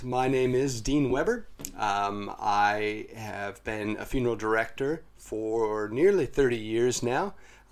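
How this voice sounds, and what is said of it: American accent. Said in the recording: “I'm sensing an accent ... I originate from the United States”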